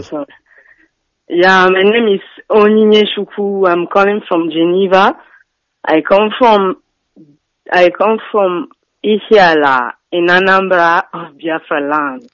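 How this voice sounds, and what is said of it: French-accented English. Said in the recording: “You sound like a French woman. Even your English, you sound French. ... You sound more French than even Biafran, more French than Igbo.”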